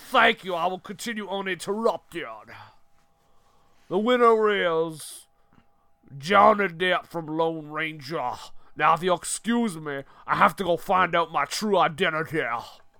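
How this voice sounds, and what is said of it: Jolly British man voice. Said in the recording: “show up as a jolly British man”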